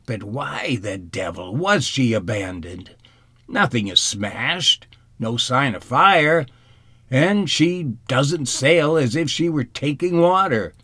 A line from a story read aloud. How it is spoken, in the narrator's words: Ichua exclaimed impatiently